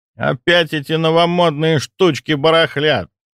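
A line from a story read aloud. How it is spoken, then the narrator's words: Grumbling elderly man. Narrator (Russian): проворчал проходивший мимо пожилой хирург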